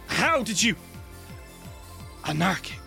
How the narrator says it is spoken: snarls

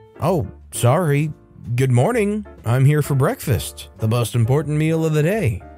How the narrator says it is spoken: he says

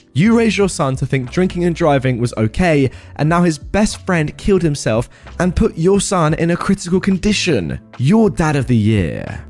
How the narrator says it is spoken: I saw red and shouted

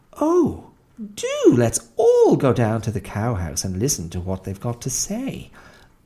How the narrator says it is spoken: exclaimed Beryl, to whom anything was thrilling and amusing if you did it in a troop

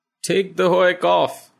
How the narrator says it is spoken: Rao cries delightedly

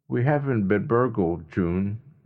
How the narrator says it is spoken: Jeff said evenly

